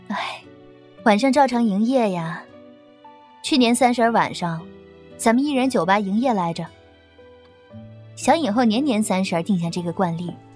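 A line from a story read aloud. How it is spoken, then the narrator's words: Sighing. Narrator (Chinese): 秦岑叹口气道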